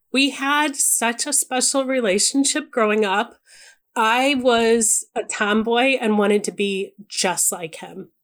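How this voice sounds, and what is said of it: Choked-up, emotional voice. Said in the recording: “I'm getting choked up even thinking about it”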